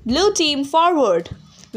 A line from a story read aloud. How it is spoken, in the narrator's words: Annabeth yelled